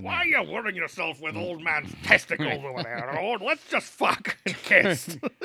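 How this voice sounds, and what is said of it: Gruff dwarf character voice. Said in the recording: “That's my first Gimli impression. ... Maybe the best ever.”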